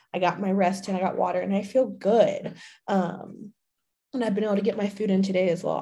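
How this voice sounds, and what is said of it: Slightly raspy, sick-sounding voice. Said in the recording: “my voice is a little raspy, my throat's sore ... with me being extremely sick yesterday”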